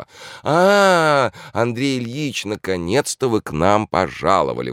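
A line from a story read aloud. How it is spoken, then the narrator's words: Singsong exclamation. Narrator (Russian): воскликнула нараспев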